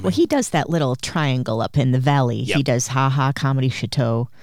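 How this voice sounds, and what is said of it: Midwestern American accent. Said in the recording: “They hate that I say Chateau. Yeah. It's my accent. ... It's my Midwestern accent.”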